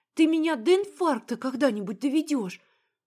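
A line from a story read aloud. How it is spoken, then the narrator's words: Breathed out. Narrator (Russian): Выдохнула я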